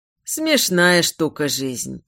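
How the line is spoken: Sighing. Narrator (Russian): вздохнул Лоран

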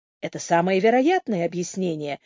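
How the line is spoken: Calm agreement. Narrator (Russian): спокойно согласился Торп

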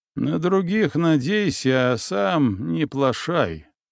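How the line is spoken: Grumble. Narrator (Russian): пробурчал Морозов

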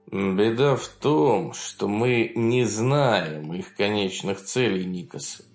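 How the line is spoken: Gloomy. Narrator (Russian): мрачно пояснил Изварян

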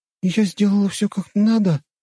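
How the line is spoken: Timid question. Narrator (Russian): робко спросила она

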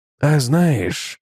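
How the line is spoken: Gentle. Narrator (Russian): мягко проговорил Свен

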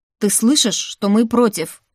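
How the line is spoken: Barking. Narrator (Russian): рявкнул Сальер

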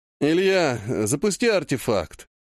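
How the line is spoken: Sleepy. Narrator (Russian): сонно сказал дядя

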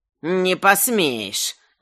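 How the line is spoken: Quarrelsome woman hissing in ear. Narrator (Russian): вдруг прошипел прямо ему в уши сварливый женский голос

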